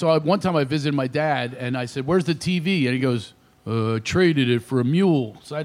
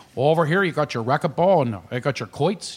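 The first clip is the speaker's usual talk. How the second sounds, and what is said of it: Imitated Shamokin Pennsylvania accent. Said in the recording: “He's there with that Shemokin accent.”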